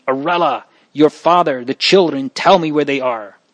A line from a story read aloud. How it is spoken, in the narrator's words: she sprang forward with a cry, and perceiving that it was her son, eagerly exclaimed